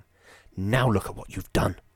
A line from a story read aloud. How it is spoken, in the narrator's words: whispered Geraldine, exasperated